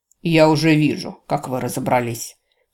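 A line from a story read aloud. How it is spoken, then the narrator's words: Light snort. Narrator (Russian): легко фыркнул Росс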